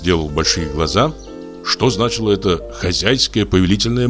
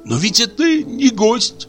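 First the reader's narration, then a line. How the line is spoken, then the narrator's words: Pleading. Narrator (Russian): сказал умоляющим голосом мой друг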